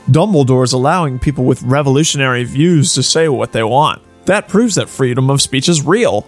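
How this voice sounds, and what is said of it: Snooty elitist character voice. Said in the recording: “in an elitist voice.”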